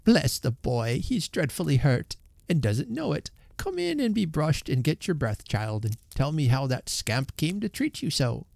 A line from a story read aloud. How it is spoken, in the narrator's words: the old lady exclaimed